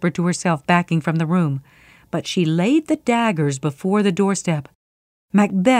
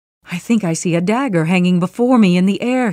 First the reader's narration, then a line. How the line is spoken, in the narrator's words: he cried